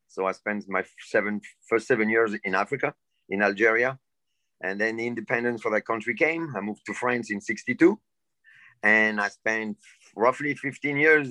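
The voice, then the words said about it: Non-native English accent. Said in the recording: “I don't know if you can tell by my accent, but I wasn't born in this country.”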